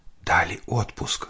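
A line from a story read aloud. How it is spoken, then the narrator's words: Whispered question. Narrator (Russian): спросила она шепотом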